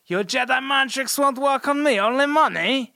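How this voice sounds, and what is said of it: Watto impression sounding like Borat. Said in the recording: “It's like Watto from like Star Wars, the first one ... Every time you do that accent, it just sounds like Borat.”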